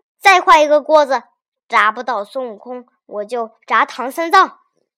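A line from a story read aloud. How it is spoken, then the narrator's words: Furious. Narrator (Chinese): 大仙大怒说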